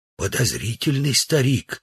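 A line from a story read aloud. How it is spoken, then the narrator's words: Whisper. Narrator (Russian): сказал Удалов шепотом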